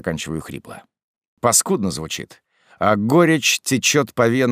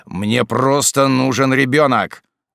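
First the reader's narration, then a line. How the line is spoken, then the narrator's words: Rude interruption. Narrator (Russian): обрываю ее грубо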